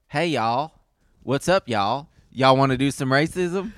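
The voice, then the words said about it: Put-on Southern American accent. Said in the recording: “do a Southern accent”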